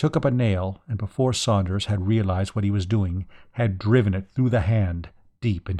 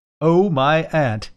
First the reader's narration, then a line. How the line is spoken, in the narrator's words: he giggled hysterically